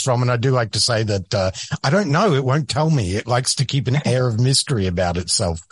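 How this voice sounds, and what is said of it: Australian accent. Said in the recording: “you had an accent... I am originally from Australia”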